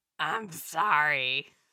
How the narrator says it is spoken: rasped

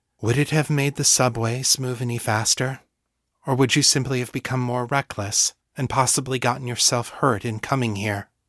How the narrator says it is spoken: said quietly

